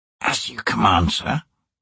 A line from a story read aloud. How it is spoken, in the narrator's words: he whispered